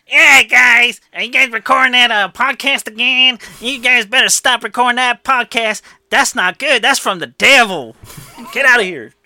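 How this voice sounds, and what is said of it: Character voice of Mr. Finkelstein. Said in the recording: “that was Mr. Finkelstein”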